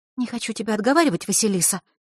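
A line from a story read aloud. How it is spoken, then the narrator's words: Quick whisper. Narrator (Russian): быстро прошептала Захарра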